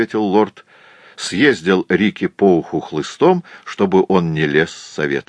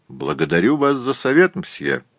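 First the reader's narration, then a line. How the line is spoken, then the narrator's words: Dry reply. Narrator (Russian): сухо ответил Гленарван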